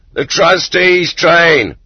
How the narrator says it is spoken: In the clay pit, they shouted

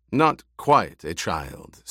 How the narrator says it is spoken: Stilgar said

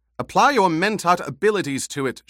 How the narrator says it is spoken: she snapped

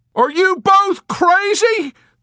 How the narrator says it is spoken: the doctor cried shrilly, in paling confusion

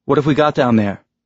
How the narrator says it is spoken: Naomi asked, her voice tense in his ear

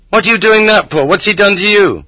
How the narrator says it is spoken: The women in the vegetable garden shrieked

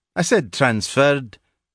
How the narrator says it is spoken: interrupted McPhee dryly

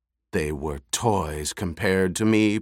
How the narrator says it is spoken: Piter snarled

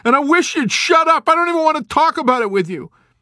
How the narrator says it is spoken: Nately shouted desperately

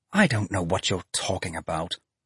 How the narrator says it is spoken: she snapped

